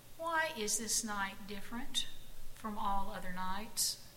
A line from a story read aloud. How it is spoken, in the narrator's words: Jesse stood up and asked in a clear voice